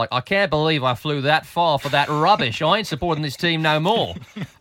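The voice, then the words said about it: Put-on Australian accent. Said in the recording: “that was my Australian accent.”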